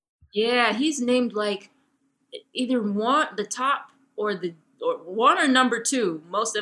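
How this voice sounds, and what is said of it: Usual voice. Nothing is said of it.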